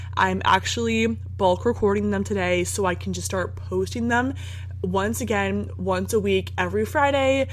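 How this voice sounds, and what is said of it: Crackly, nasal sick voice. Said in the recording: “my voice sounds more, like, crackly and nasally than normal, I'm sick”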